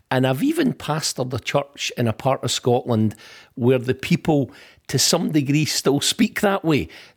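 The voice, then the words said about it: Scottish accent. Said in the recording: “I'm actually from there, and I've spoken, with a Scottish accent my whole life”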